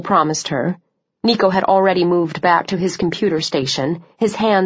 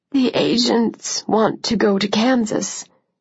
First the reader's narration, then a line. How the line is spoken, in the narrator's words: said, her voice strained